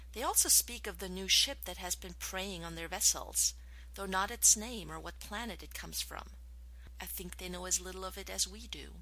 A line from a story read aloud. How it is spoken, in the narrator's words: Her voice thoughtful, Taylor added